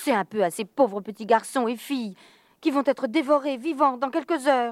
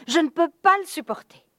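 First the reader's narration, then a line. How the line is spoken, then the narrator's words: Exclaimed. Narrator (French): s'écria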